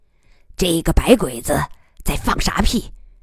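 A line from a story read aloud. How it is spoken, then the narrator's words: Cold question. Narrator (Chinese): 他冷冷地问姬仁瑞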